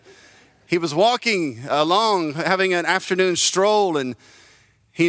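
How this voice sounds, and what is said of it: Usual voice. Nothing is said of it.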